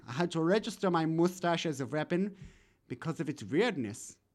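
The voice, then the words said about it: Put-on German accent, Sigmund Freud. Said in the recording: “I'm impressed with your accent ... I'm Sigmund Freud. I've been speaking this way since I learned to talk, because I'm very German”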